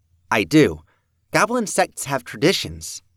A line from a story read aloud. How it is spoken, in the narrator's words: Maggie said